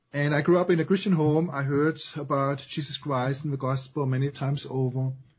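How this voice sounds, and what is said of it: German accent. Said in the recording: “I grew up in Germany, as you can possibly detect from my accent.”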